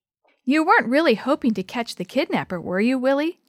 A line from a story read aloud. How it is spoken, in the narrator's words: Dee Dee asked